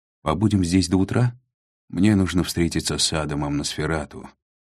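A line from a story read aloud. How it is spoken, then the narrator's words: Sighing. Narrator (Russian): вздохнул Адриан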